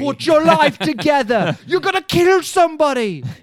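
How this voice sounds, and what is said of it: Yelling British chef impression. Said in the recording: “a British man yelling ... that was a great Gordon Ramsay impression.”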